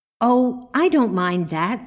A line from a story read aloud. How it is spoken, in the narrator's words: said Marjorie